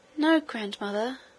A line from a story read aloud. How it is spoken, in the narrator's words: answered the princess, with a little gasp